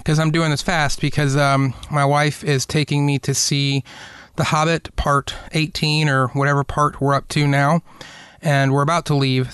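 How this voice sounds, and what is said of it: A little out of breath. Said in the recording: “I'm a little out of breath”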